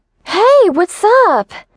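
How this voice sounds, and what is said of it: Overly happy, exaggerated cheerful voice. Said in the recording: “I exclaimed in an overly happy voice.”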